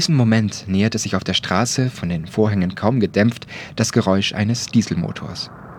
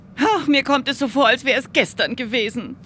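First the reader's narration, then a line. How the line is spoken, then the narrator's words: Whimpering. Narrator (German): wimmerte Mathilda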